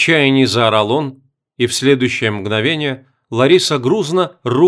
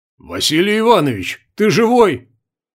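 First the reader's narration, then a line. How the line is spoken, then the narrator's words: Loud shouting. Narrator (Russian): громко кричал ему в окровавленное лицо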